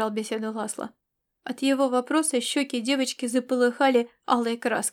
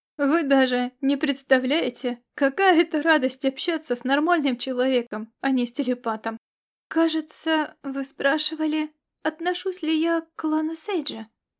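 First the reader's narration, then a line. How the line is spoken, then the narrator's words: Uncertain young girl. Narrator (Russian): Неуверенно проговорила девочка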